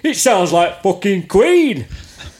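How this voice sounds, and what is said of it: Imitates another person's voice. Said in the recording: “I can actually do the accent for Rod Smallwood ... I don't actually have to do a crap Cockney accent.”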